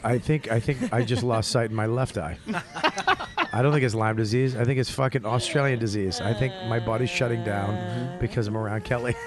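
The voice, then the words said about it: Put-on accent. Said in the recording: “Still doing that same accent.”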